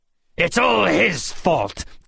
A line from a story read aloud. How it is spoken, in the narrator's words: Georg snarled